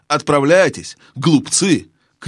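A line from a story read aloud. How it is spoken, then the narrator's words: Witch shouting after them. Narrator (Russian): крикнула вслед им колдунья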